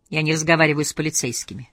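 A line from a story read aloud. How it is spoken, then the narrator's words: Monotone reply. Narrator (Russian): монотонным голосом ответила Лизбет Саландер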